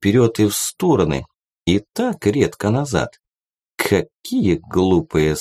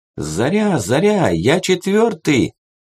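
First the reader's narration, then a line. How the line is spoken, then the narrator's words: Ringing shout through mask. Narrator (Russian): кричал в микрофон в маске звонкий голос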